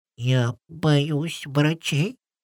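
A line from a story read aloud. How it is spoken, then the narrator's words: Dragon's whisper. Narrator (Russian): прошептал дракон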